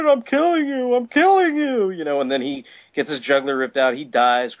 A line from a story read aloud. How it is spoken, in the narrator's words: Krypto howls